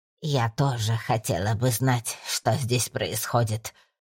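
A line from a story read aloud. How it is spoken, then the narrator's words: Hissing woman. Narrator (Russian): прошипела полная, затянутая в цветастое платье дама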